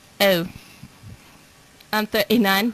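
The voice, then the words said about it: A put-on accent. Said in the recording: “you have to say it with a little bit of an accent”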